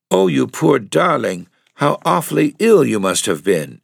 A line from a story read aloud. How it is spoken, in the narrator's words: exclaimed Lotta